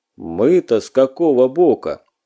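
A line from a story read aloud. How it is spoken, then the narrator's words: Grim, lowered voice. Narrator (Russian): Светогор мрачно усмехнулся, понизил голос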